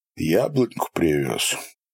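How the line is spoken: Quiet serious question. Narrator (Russian): спросил негромко, без улыбки, всерьез

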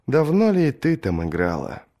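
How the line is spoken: Sigh, prince. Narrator (Russian): вздохнул принц

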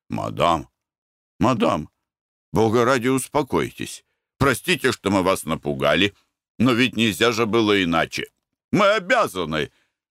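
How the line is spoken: Muttering in French. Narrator (Russian): бормотал он по-французски

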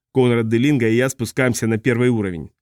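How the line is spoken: Plain. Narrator (Russian): сказал я ей

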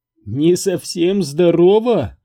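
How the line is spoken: Laughing woman. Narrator (Russian): расхохоталась она

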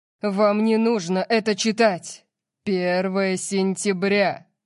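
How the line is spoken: Loud. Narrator (Russian): громко сказал Орион

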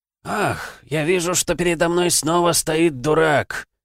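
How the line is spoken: Deep grumbling voice. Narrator (Russian): проворчал глубокий голос из пустыни

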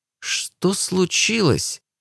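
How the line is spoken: Trembling voice. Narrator (Russian): спросила дрогнувшим голосом

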